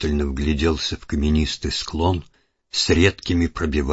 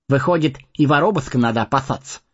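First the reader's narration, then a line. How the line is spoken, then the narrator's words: Amused snort. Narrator (Russian): хмыкнул Сэмми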